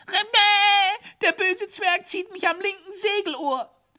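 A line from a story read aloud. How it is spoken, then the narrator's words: Grinning. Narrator (German): grinste Thaddäus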